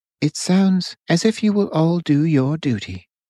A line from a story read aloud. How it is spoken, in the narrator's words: Louise said calmly